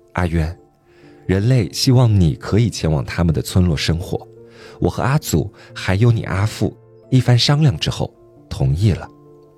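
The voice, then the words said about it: Very gentle, soothing voice. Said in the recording (Chinese): “用极为缓和的声音说”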